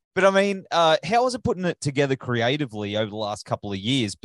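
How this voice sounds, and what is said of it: Australian accent. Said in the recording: “I say it in my Australian accent”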